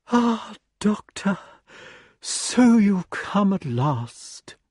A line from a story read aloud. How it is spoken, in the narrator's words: sighed emphatically, and said